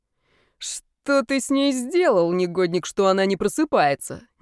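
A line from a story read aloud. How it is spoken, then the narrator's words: Sheikh laughing. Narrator (Russian): не переставал смеяться шейк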